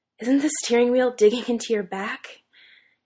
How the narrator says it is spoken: he gasps

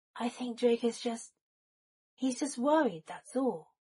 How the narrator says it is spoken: Remus sighed

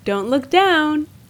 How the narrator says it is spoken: he said cheerfully

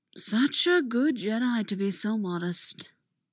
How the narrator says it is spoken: Dooku murmurs

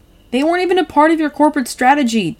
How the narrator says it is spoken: Tim yells furiously

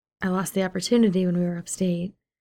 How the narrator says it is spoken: he says

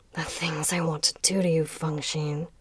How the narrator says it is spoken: Muqing mumbled

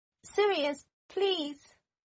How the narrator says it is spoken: Draco called out

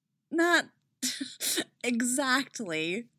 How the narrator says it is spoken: laughs

